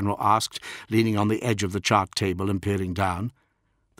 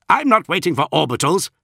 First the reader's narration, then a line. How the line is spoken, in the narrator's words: said Dev sharply